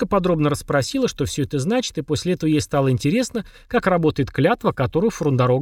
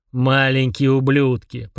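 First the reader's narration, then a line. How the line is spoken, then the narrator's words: Grumbling. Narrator (Russian): проворчал Фрундорог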